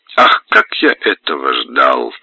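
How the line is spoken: Laughing. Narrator (Russian): смеясь, обращается офицер к барону

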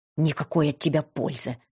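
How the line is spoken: Irritated hiss. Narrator (Russian): раздраженно прошипела Фиса

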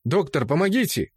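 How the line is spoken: Shout. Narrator (Russian): крикнул капитан Рид

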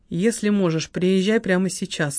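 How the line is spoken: Plain. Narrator (Russian): сказала Лайма

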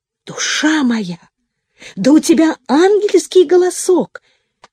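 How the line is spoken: Exclaiming. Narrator (Russian): воскликнула мадемуазель Диана

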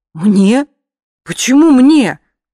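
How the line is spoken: Frightened question. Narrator (Russian): уточнила я испуганно

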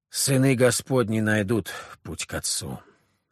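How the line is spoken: Sighing. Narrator (Russian): вздохнул Филарет

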